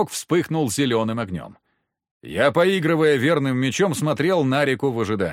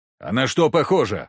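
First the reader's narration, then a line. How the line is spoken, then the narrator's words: Snapped retort. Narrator (Russian): огрызнулся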